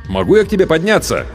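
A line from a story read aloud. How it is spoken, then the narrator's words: Shout. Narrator (Russian): крикнул я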